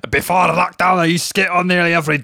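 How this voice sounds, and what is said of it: Attempted Scottish accent, somewhat Shetland. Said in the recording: “I can't do Scottish. ... You've got a bit of Shetland there.”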